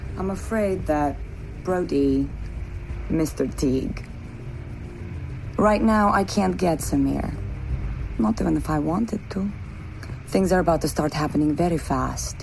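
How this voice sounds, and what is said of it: Weird put-on accent. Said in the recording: “Why are you putting on that weird accent?”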